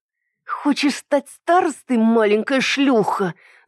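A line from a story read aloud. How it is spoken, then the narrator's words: Hissed in ear, familiar voice. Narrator (Russian): зашипели мне в ухо странно знакомым голосом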